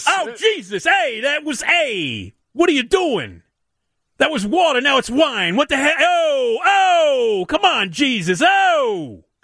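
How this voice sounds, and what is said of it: Exaggerated New York accent. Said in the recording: “Harvey Keitel had like the New York accent ... when I reenact”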